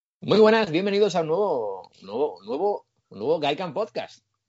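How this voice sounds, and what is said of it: Radio announcer voice. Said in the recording (Spanish): “tú tienes voz de locutor de puta madre”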